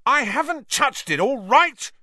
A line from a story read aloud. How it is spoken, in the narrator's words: Ron roared back